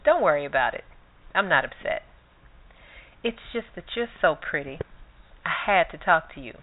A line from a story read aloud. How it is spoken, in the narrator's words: he purred